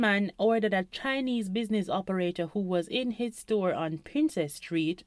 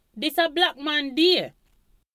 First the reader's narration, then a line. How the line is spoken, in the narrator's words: Some demonstrators yelled